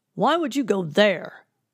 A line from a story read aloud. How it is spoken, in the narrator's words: father snapped, his face turning red